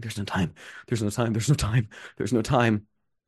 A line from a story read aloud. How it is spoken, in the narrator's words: still mumbling